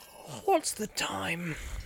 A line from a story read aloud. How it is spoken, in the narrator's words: He said sleepily